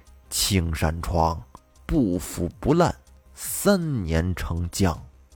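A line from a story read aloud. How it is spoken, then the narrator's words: Murmuring. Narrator (Chinese): 崔半仙喃喃地说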